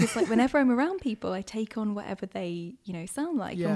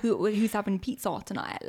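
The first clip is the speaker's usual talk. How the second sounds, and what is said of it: Put-on London accent. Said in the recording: “accent chameleon ... when I first moved down to London, I was like, well, to fit in with everyone, I've got like a sound like this ... it's not how I sound”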